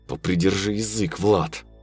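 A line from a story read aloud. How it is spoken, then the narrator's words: Through gritted teeth. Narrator (Russian): процедил Виктор сквозь зубы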